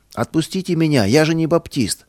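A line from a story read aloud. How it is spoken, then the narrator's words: Detained young man shouting. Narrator (Russian): Один задержанный милицией юноша кричал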